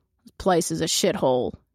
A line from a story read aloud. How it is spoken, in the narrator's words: he growls